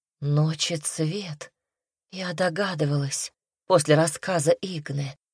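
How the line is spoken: Whisper. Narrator (Russian): прошептал Руми

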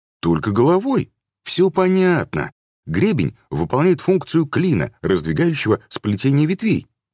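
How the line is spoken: Joyful report. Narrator (Russian): радостно отрапортовал Девяткин

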